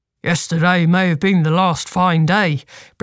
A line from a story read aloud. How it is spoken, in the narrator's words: Bristle grunted